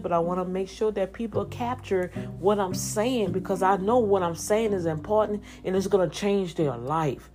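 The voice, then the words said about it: Speaks with a noticeable accent. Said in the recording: “because of my accent, but I know I still have my accent,”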